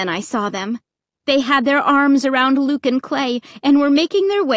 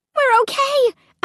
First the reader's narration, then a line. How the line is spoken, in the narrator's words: I cried